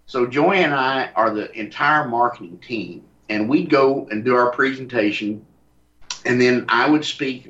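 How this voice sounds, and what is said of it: Texas accent, smooth run-together words. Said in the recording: “has a Texas accent ... his words roll together real smooth. You know, they just all roll together.”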